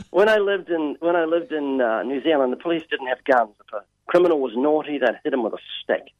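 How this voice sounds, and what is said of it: Slight New Zealand accent. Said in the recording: “I'm originally from New Zealand ... I have a slight accent”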